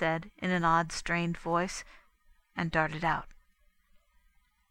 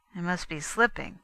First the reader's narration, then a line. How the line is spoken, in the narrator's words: he muttered